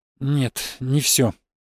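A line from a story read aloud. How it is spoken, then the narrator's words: Forced out. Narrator (Russian): выдавил из себя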